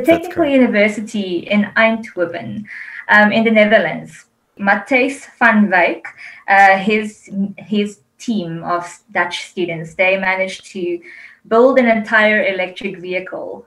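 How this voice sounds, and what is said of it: Afrikaans accent. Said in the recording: “I'm saying it with an Afrikaans accent”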